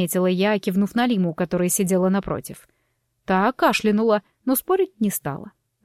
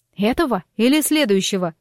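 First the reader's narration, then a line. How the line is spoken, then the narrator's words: Loud laughter. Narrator (Russian): расхохоталась я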